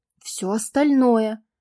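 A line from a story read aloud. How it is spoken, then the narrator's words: Heated exclamation. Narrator (Russian): с ожидаемой горячностью воскликнула она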